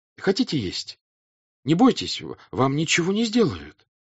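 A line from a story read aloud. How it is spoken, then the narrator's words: Timid and gentle. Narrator (Russian): прибавил он, робко и ласково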